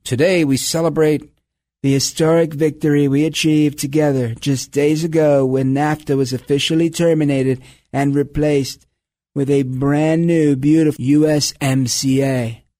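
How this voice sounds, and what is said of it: Donald Trump impression. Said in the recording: “still working on my Trump impression”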